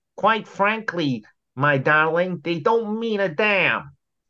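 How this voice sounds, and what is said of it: Imitates another person's voice. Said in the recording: “worst Clark Gable impersonation you've ever heard in your life”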